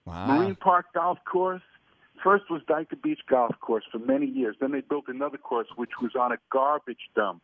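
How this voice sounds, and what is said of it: New York Brooklyn accent. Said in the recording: “I hear an accent that maybe comes out of like New York, maybe Brooklyn”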